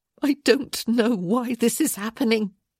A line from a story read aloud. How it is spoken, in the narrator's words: she whimpered